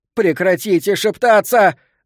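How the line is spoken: Screaming. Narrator (Russian): завопила Элизабет

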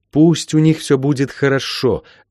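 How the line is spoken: Sudden pleading. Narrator (Russian): вдруг взмолилась

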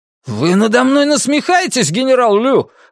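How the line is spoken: Furious exclamation. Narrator (Russian): воскликнул взбешенный Скотт

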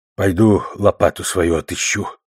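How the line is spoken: Forced out with effort. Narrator (Russian): выдавил, наконец, Боманс

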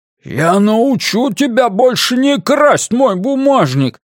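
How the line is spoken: Roared in face. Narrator (Russian): проревел Блейз в лицо мужчине

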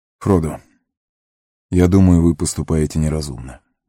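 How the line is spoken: Gentle. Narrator (Russian): мягко сказал Фарамир

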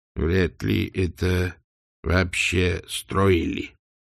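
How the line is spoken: Quiet mutter. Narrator (Russian): тихо пробормотал Сдумс

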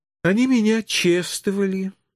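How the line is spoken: Sighing, slow, emphatic. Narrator (Russian): вздохнув, начала пояснять жертва, значимо и четко разделяя слова, как самому тупому троллю

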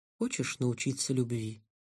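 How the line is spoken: Calm question. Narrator (Russian): спокойно спросила Гаррет

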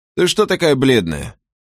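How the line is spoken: Forced cheer, fearful voice. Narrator (Russian): Он изо всех сил старался говорить бодро, но в его голосе слышался страх

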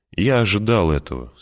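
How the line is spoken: Calm. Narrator (Russian): спокойно сказал Пауль

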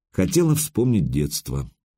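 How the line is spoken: Calm. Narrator (Russian): спокойно ответила Мария

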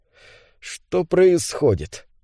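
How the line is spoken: Muttered. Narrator (Russian): пробормотал он

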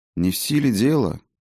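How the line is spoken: Sad sigh. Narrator (Russian): печально вздохнул Фиделис

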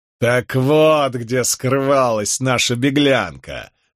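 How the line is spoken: Bursting laughter. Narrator (Russian): расхохотался Воувал

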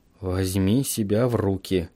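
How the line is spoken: Quiet, to himself. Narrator (Russian): сказал я себе тихо

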